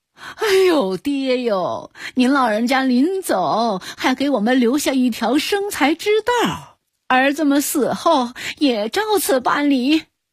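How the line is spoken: Sons sobbing in unison. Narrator (Chinese): 三个儿子感动得齐声哭道

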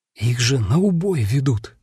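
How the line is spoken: Quiet indignation. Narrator (Russian): тихонько возмутился Хенрик

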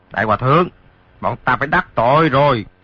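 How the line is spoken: Shouted. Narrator (Vietnamese): Hai tên lạc ma kia quát

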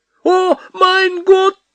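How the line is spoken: Cry in a foreign tongue. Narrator (Russian): Почему-то не по-нашему вскрикнула Капа

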